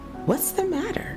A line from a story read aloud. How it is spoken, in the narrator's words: Carrie, who had finished speaking with her friend, seeing Minnie and the strange woman talking together, exclaimed